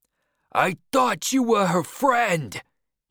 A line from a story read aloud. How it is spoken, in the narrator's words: shouted